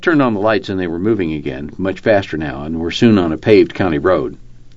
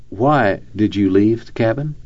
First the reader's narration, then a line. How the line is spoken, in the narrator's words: Finally, Jeff calmly asked her